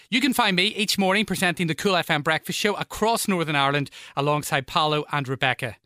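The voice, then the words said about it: Northern Irish accent. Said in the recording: “I'm sure you can tell from my accent that I'm from Northern Ireland.”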